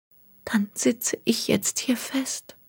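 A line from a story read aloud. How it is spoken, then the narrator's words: Murmured. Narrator (German): murmelte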